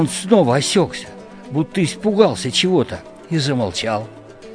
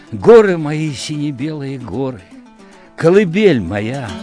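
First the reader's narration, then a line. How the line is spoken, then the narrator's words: Faltering, coughing. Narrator (Russian): Он вдруг запнулся, закашлялся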